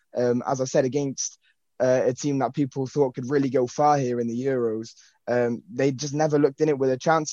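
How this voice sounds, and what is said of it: English accent. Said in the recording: “it's the accent that throws you off a little bit, but ... is as English as they come”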